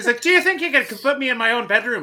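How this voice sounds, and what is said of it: Put-on Irish accent. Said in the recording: “you have already been more consistent with his Irish accent than he is through the entire movie”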